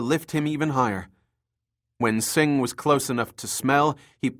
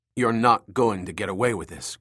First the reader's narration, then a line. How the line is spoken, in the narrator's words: Cabrillo said